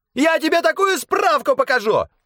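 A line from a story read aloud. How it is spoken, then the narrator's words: Squeaky yelling. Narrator (Russian): пискляво вопил один из чиновников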